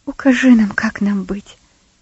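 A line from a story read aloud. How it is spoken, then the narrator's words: Whisper. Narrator (Russian): зашептала Бетси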